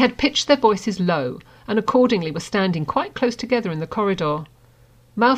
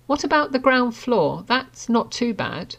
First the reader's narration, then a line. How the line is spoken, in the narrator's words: Harry said slowly, thinking hard